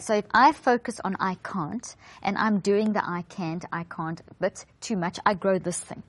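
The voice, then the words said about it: South African accent. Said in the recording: “She's from South Africa. So it's can't and garage. ... I love your accent. It's lovely.”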